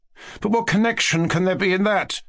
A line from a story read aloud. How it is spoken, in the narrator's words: he cried out at last, but stopped short